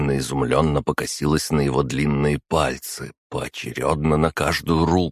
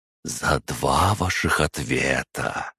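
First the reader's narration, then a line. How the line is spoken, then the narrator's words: Smiling whisper. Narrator (Russian): с улыбкой в голосе прошептал он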